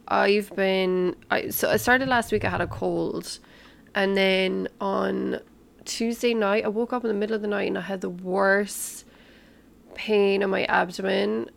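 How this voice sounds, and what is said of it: Croaky, sick-sounding voice. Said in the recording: “my voice sounds a little croaky. I'm sick again.”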